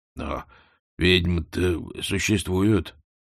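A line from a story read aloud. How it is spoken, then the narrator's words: Uncertain. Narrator (Russian): неуверенно отозвался кузнец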